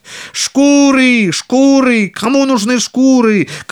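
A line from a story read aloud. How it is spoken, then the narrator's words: Street cry. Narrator (Russian): кричал он по улицам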